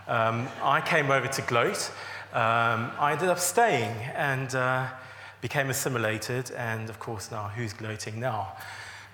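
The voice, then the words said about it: South African accent. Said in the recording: “so you're not guessing the accent, I am from South Africa originally”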